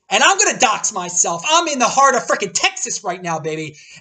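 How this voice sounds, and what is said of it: Loud, screaming excited delivery. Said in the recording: “I'm screaming, but this is how I usually am anyway.”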